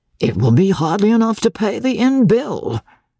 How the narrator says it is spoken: grumbled the guardsman

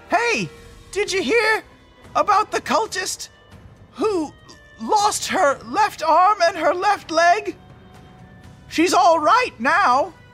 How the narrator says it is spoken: yell from my hidden position

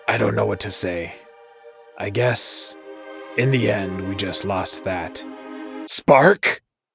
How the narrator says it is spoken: cackled again

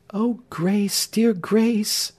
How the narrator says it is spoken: said Marion, clinging yet more tenderly and fondly

